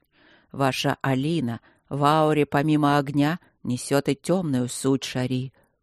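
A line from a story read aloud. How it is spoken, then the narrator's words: Calm. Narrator (Russian): так же спокойно сказал он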